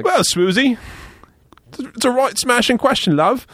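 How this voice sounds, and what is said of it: Put-on accent for a commercial. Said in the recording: “I should do an accent for the commercial show. ... You have to do a new accent for the product.”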